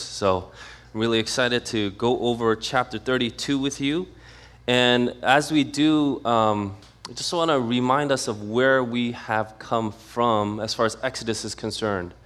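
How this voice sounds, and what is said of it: Slightly congested voice. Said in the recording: “I'm a little under the weather, so I apologize if I sound a little congested”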